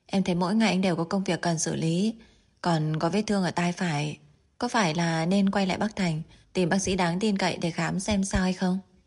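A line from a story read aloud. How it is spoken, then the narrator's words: Smiling. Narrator (Vietnamese): Thẩm Diên Phi mỉm cười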